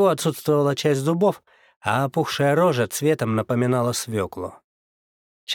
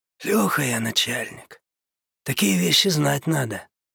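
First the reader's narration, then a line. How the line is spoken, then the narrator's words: Cheerful hoarse rasp. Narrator (Russian): весело прохрипел мужик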